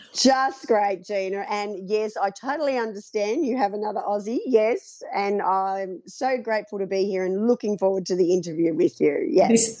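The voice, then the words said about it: Thick Australian accent. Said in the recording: “That's got as thick an Australian accent as me”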